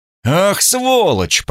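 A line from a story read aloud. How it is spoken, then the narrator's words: Embarrassed shout. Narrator (Russian): прокричал я, чувствуя себя идиотом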